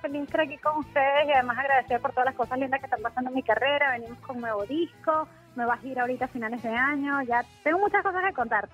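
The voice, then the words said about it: Speaks with a noticeable accent. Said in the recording (Spanish): “Me encanta ese acento”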